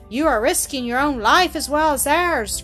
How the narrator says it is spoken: cried one

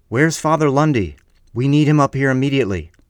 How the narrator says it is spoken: frantically yelling at anyone in earshot

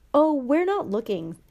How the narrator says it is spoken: Harry told him brightly

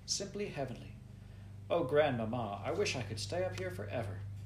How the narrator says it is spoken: she sighed

